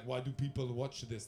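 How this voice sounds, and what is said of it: Poor attempt at Russian accent. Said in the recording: “That's not a Russian accent”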